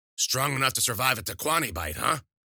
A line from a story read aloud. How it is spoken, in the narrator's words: Wheeler tried to speak, but her throat was too dry, and the only thing that would come out was a hoarse croak